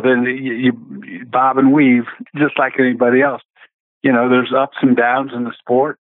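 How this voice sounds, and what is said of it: Southern American accent. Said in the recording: “between you two Southern boys with your accent”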